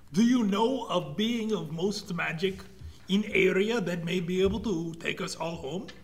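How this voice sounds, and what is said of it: Strange put-on broken-English accent. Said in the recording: “Why can't you speak English? ... Where did you even get this accent? I've never met anyone speaking like you.”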